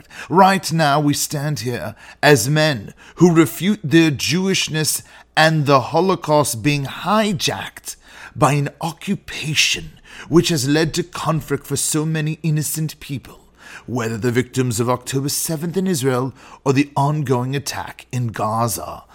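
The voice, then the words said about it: Imperfect put-on British accent. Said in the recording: “shall I spare you the British accent, or shall we do it anyway, even though it's not perfect?”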